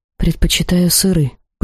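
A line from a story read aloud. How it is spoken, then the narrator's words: Whispered. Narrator (Russian): почему-то шепотом ответила я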